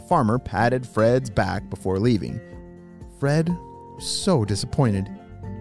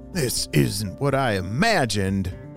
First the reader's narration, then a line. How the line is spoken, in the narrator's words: Fred groaned